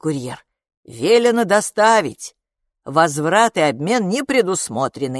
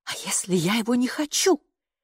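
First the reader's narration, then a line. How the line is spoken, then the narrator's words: Quiet mother's voice. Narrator (Russian): тихо проговорила мама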